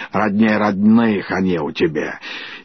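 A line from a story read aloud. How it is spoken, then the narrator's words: Old woman grumbling. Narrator (Russian): Давняя подруга ее Хрунычиха, осуждая или радуясь, ворчала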